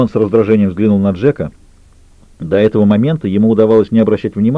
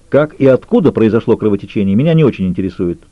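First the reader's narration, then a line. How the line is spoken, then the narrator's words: Sharp objection. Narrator (Russian): резко возразил Роман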